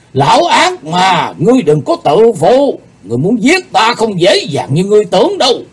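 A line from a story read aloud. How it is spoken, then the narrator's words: Angry shout. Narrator (Vietnamese): Thần Phong đạo nhân giận dữ quát lên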